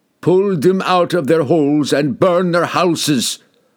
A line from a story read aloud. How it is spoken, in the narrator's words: the barbarian king roared